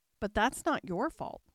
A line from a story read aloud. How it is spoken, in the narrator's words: the rose added kindly